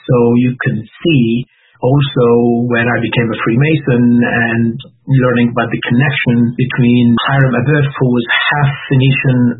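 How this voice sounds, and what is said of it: Slight Lebanese accent. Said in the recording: “they may detect a slight accent that you have ... I do have an accent ... My origins are from Lebanon”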